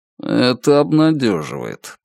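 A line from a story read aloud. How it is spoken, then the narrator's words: Murmuring. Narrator (Russian): пробормотал Лун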